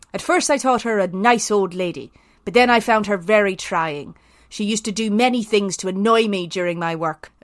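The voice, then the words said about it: Put-on Belfast Irish accent. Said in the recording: “should I do this in an Irish accent? ... could it be a Southern Irish accent, actually? ... I was going very Belfast here”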